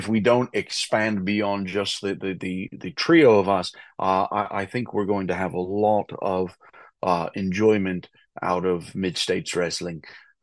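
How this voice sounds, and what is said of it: British English accent. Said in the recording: “you are British. You are not putting on an accent. You are a British. ... you're from England.”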